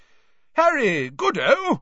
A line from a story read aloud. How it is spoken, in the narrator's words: said Bagman, happily